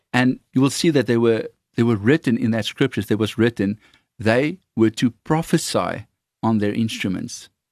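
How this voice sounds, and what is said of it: Afrikaans accent. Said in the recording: “however you would pronounce that with my Afrikaans accent.”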